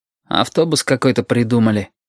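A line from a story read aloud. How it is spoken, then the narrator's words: Grumbled. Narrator (Russian): буркнул Шамиль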